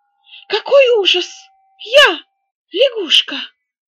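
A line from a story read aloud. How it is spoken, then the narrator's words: Exclaimed. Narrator (Russian): воскликнул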